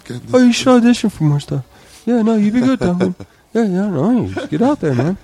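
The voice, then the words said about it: Impression of Johnny Pemberton. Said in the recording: “impression of Johnny Pemberton ... I think that's a pretty good impression ... Yeah, it's not bad.”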